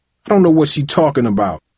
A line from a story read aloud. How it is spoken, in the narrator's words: he said bitterly, struggling to maintain a few shreds of pride